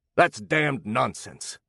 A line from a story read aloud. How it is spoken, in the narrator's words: snapped Potter